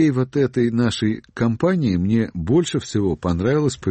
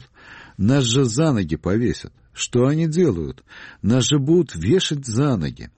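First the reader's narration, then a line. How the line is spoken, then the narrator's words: Exclaiming. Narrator (Russian): Степашин воскликнул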